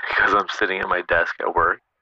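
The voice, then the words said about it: Hushed, quiet voice. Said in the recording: “Why are you talking in hushed tones?”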